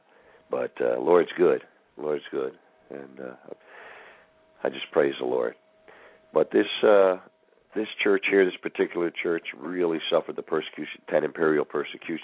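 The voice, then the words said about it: Sick, under-the-weather voice. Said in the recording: “I'm a little under the weather today. You probably hear it in my voice.”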